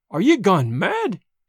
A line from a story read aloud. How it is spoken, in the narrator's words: he cried